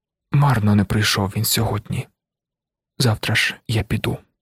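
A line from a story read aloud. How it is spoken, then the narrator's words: Gentle quiet speech. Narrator (Ukrainian): лагідно і тихо сказала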